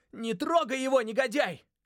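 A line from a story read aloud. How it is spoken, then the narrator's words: Yelled. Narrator (Russian): заорал я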